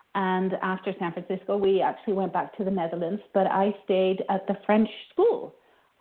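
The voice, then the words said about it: Hard-to-place mixed accent. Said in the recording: “they can't quite place me with my accent, because it's a little bit funny”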